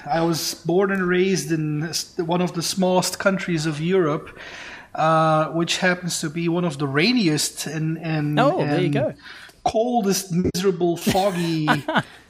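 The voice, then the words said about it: Belgian accent. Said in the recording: “accent ... That is Belgium”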